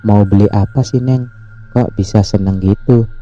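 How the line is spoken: Plain. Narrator (Indonesian): tanya Aki

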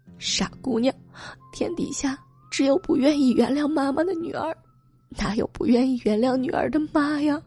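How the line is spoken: Crying. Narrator (Chinese): 吴娟哭着说

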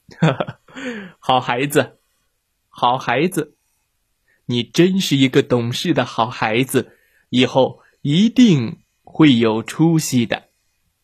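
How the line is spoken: Happy hearty laughter. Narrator (Chinese): 爸爸高兴的哈哈大笑

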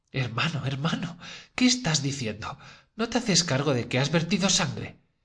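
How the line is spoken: Dismayed exclamation. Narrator (Spanish): exclamó Dunia, consternada

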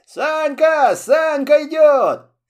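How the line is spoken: Kids shouting. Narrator (Russian): И вдруг ребята закричали

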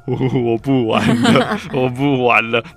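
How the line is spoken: Laughing helplessly. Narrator (Chinese): 我就笑到一个不行，然后说

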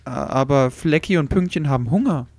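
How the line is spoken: Hesitant reply. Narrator (German): entgegnete Susi zögernd

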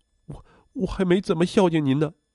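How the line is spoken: Crying. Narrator (Chinese): 我也哭，我说

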